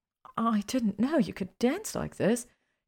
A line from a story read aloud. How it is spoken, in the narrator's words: she said breathlessly